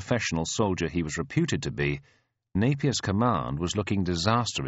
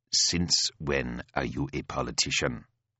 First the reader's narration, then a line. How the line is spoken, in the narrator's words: growls Fazel